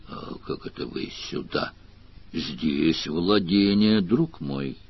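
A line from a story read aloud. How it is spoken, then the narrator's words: Soft interruption. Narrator (Russian): Мягко прервал его Сварог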